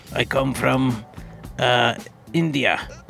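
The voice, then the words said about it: Put-on Russian accent. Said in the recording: “With a Russian accent.”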